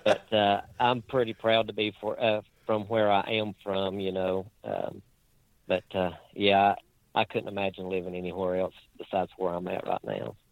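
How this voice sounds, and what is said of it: Rural Virginia country accent. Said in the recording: “my accent, I'm about as hillbilly as you can get ... very deep into the country folk part”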